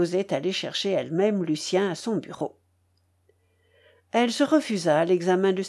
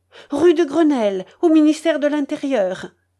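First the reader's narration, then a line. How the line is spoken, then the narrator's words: Shouted. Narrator (French): cria-t-elle au valet de pied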